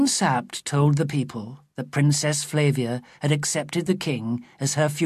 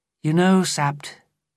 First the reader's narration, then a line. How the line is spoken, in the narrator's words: I said sadly